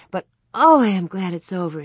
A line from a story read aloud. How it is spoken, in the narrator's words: sighed